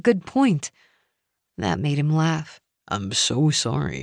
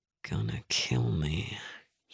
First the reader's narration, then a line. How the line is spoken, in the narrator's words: he muttered